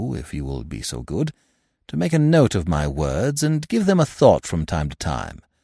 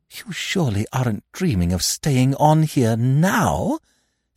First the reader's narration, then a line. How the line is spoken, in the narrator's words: she gasped